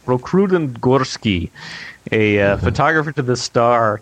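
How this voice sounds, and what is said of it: Put-on Russian accent. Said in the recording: “I practiced my perfect Russian accent.”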